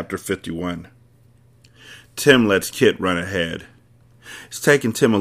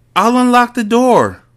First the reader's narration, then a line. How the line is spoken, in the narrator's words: hears the boy yell